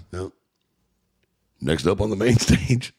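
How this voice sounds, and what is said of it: Announcer-style radio voice. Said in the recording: “I got to use my radio voice.”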